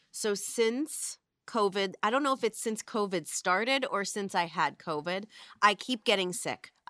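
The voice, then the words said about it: Congested, stuffy sick voice. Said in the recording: “I have fucking snot coming out of my nose at all times. And I sound like a cross between a Smurf and Gargamel.”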